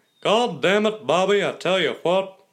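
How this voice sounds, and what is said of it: Impression of cartoon character Hank Hill. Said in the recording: “It's Hank Hill. It's Hank Hill from King of the Hill. Easily. ... It's a really great impression”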